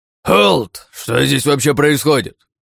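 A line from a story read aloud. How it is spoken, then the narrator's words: Hoarse bark from below. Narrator (Russian): Хриплый голос рявкнул снизу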